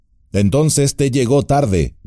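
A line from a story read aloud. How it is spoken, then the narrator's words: Plain. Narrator (Spanish): dijo Gandalf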